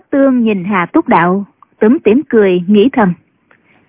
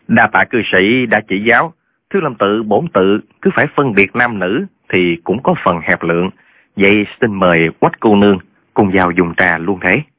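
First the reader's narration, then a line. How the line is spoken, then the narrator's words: Smiling. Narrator (Vietnamese): mỉm cười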